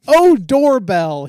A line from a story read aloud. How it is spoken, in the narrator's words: he shouted